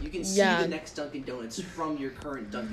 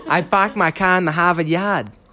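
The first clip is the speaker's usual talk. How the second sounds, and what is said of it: Put-on Boston accent. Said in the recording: “Have a Bostonian accent. I don't have it. Oh, want me to pull one on for you? ... Was that not good?”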